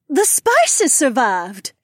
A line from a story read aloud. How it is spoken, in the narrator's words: exclaimed